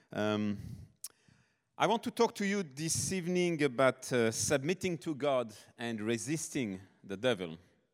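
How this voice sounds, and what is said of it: French accent. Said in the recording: “If you hear an accent, I'm from the south, okay? South of France, born and raised in France.”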